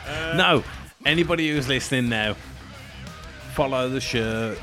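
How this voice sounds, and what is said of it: Put-on northern English accent. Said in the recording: “did you go Yorkshire?... That's a Rochdale accent if I've ever heard it”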